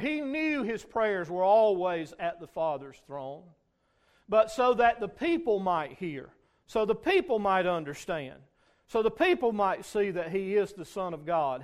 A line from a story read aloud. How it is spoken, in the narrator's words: he cried with a loud voice